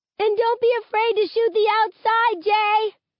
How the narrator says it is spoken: Maya shouts

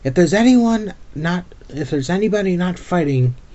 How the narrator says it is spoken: he yelled as he ran

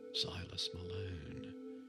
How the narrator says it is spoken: said in a whisper

